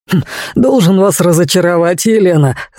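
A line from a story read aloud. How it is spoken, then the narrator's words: Laughing. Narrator (Russian): рассмеялся Дэнни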